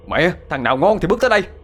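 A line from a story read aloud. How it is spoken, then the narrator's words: Roaring. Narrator (Vietnamese): Thiên gầm lên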